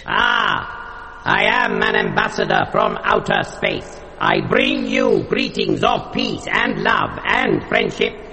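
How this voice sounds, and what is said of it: Funny alien character accent. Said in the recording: “you've got a funny accent”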